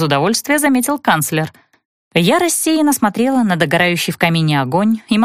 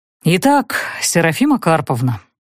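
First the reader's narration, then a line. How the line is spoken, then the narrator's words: Sighing. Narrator (Russian): вздохнул Брют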